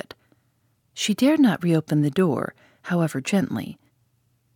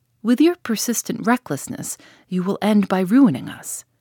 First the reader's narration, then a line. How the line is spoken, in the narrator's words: the latter exclaimed bitterly